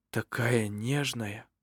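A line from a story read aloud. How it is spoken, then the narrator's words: Surprised whisper. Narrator (Russian): прошептал он удивленно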